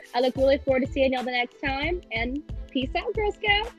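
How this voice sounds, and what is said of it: Country twang accent. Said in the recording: “my country twang”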